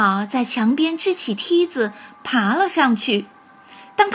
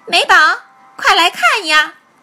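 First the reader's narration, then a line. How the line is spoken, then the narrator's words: Loud shout. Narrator (Chinese): 大声地喊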